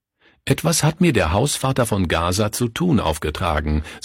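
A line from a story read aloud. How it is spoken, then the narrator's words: Plain. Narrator (German): sagte Günther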